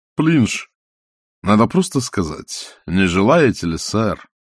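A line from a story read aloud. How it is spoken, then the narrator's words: Sighing. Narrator (Russian): вздохнул музыкальный директор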